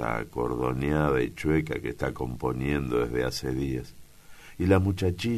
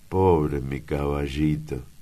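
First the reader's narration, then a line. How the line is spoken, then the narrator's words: Exclaiming. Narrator (Spanish): exclama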